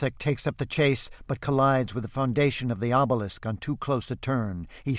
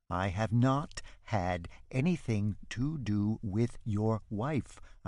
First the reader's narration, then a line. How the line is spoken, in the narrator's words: chant distinctly and slowly